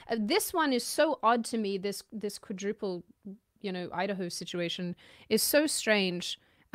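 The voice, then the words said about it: Mixed, Australian-sounding accent. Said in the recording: “chameleon accent ... she absolutely sounds Australian to me. She sounds almost more Australian”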